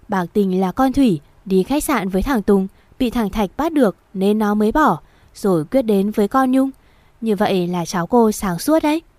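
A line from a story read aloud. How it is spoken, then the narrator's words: Old woman, mocking laugh. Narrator (Vietnamese): Bà Mai cười mỉa mai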